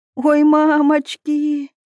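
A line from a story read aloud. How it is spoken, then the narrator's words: Moaning. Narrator (Russian): простонала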